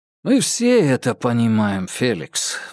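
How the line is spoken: Sighing. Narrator (Russian): вздохнул Анзоров

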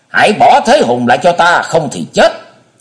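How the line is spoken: Thunderous roar. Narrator (Vietnamese): Hải ma giáo chủ gầm lên như bầu trời chuyển động

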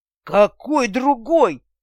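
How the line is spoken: Growl turning to hiss. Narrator (Russian): Ренар с рычания на шипение пришел

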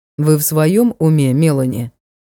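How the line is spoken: Cold inquiry. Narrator (Russian): Холодно осведомилась я

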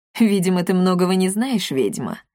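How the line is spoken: Mocking. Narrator (Russian): насмешливо король кочевников

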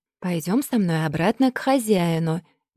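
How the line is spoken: Tender. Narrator (Russian): нежно проговорила Абатала

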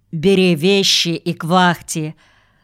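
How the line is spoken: Angry. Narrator (Russian): Сердито сказал

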